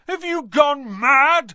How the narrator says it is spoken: Ron bellowed

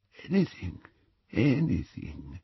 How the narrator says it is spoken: said the wand-maker weakly

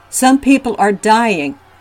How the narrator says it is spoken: they were shouting

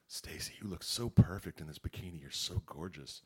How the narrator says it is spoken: Mike whispered

